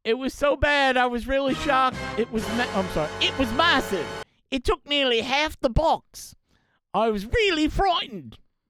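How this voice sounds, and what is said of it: Put-on foreign accent, done poorly. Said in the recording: “Why am I doing that accent? I think I got it wrong.”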